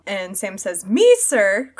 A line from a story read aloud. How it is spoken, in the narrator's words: cried Sam, springing up like a dog invited for a walk